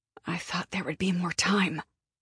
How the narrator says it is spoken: she muttered under her breath

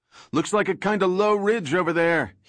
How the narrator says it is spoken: shouted

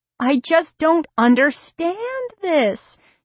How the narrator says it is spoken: she was saying shakily

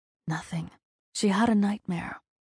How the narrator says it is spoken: he explained in a calm, measured tone

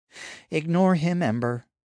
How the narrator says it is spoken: Naomi sighed

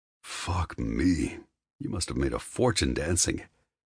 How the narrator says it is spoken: she snorts

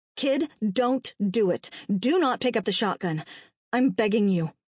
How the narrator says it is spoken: snapped

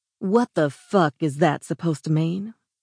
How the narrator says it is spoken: She snarled

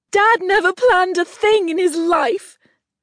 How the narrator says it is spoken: sniffed loudly

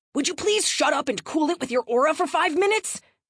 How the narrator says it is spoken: Brian snapped in response

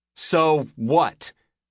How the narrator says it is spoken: Layla snapped, still angry beyond reason

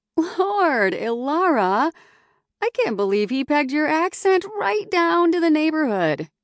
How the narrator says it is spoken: said with a laugh

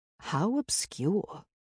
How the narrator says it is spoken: Rebecca muttered

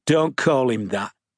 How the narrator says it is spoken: Sharp said irritably

